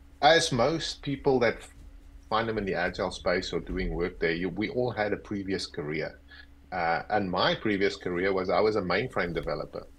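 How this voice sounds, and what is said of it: South African accent. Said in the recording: “I've got this accent. So I'm originally from South Africa.”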